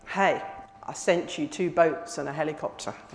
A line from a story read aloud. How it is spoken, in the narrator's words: God calmly replied